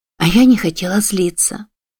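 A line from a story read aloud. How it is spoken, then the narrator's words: Sigh. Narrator (Russian): вздохнула она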